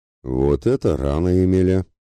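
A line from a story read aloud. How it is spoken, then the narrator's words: Sarcastic smirk. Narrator (Russian): Язвительно усмехнулся Ратибор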